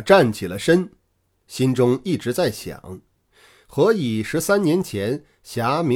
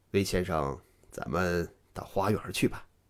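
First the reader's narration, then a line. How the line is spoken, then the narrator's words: Low voice. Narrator (Chinese): 黄俊低声说道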